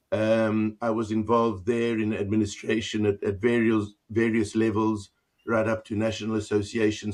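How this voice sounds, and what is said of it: South African accent. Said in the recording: “I come originally from South Africa. That's where my accent is.”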